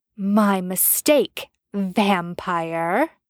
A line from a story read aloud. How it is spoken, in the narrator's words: she sneered